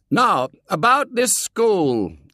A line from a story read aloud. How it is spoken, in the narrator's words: yelled his father